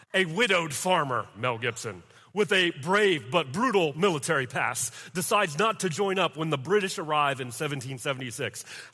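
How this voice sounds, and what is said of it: Movie narrator voice. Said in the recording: “in my best movie narrator voice”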